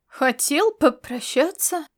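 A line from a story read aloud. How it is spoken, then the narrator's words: Heavy sigh. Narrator (Russian): Ласло тяжело вздохнула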